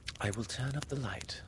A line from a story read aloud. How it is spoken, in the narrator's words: she said